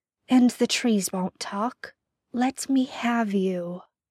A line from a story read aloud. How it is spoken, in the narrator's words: Peter says softly